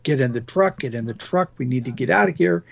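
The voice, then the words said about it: Yelling, urgent quoted shout. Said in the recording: “he's yelling”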